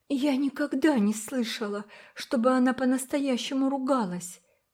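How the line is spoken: Uncertain, awkward. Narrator (Russian): неуверенно сказала Уна, чувствуя себя неловко

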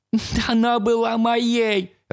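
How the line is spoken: Sobbing. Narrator (Russian): разрыдался Шеп

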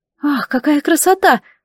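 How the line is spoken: Exclaiming. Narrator (Russian): воскликнула Агнесса

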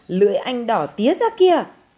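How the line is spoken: Scream. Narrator (Vietnamese): Phương gào lên

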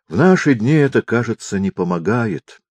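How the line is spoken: Sighing. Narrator (Russian): вздохнул декан

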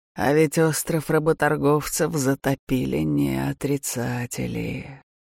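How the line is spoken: Sudden drawl. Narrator (Russian): вдруг протянул Адлар

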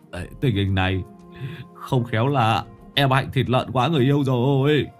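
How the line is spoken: Whimpering, near tears. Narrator (Vietnamese): Tứ Lợn bây giờ mới mếu máo

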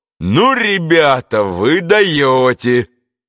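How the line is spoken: Loud booming voice. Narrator (Russian): шумел своим зычным голосом туземец

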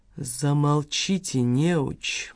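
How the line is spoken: Woman hissing. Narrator (Russian): прошипела профессорша Триуха Ляпина

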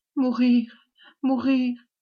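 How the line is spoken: Tearful stammer. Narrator (French): balbutia-t-elle parmi ses larmes

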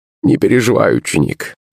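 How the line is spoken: Creaky voice. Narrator (Russian): проскрипел

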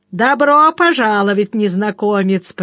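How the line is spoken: Spluttering roar. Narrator (Russian): проревел он, брызгая слюной

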